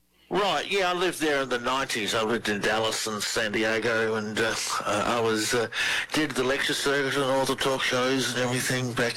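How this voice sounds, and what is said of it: Australian accent. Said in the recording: “Australian researcher. Love the accent.”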